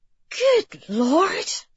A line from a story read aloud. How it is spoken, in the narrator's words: she breathed